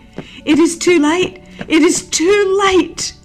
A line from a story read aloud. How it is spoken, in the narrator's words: Judas saw that his entreaties were in vain exclaiming